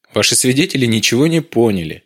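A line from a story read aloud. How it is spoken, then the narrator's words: Cheerful. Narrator (Russian): весело произнес Дронго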